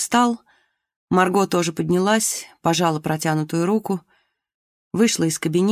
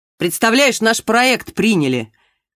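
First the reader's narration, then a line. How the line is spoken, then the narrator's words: Shouting from doorway. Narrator (Russian): крикнул Глеб с порога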